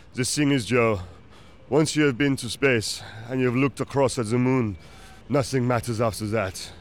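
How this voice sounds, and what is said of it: Put-on French accent. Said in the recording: “I'm going to do a bad French accent ... That was a really good accent ... that was actually really good. You sounded so French.”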